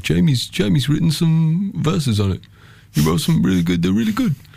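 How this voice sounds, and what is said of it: Impression of a friend's voice. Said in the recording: “This is a really, really bad impression, by the way. ... Oh, my God. It's spot on.”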